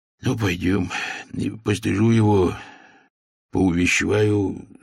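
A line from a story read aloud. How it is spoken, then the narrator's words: Sighing. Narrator (Russian): вздохнул государь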